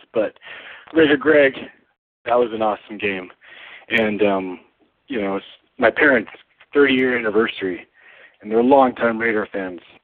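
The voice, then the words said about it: Strained, fading voice. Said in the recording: “losing my voice, so hopefully, you know, my voice sounds clear enough to understand”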